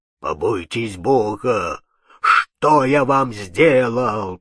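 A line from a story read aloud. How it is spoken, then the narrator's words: Hoarse wheeze. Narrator (Russian): прохрипел незнакомый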